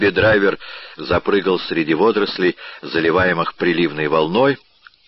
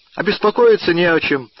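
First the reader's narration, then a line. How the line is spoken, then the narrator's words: Exclaiming, hearty. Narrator (Russian): воскликнул Дигби-драйвер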